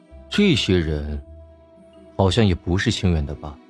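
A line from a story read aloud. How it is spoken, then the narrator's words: Questioning tone. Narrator (Chinese): 易灵 一脸询问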